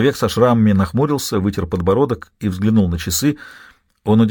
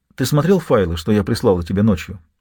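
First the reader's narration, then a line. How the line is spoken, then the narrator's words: Plain. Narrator (Russian): спросила Мэйорана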